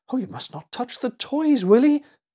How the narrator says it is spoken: gasped poor Annie in fright

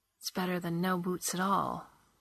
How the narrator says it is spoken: the girl said softly

